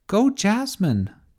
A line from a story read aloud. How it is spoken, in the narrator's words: cried Tessa